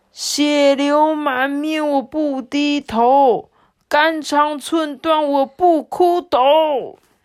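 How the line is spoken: Loud declaration. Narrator (Chinese): 马浪头目就高声的说

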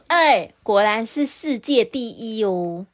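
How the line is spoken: Chuckling. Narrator (Chinese): 暖炉啊，呵呵的笑着，他说

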